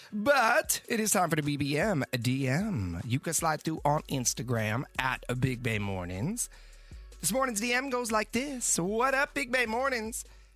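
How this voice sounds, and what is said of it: Hoarse sick-sounding voice. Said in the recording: “Excuse my voice. I'm still fighting through this sickness.”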